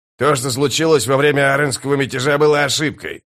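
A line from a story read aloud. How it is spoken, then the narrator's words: Snapping retort. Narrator (Russian): огрызнулся скрипач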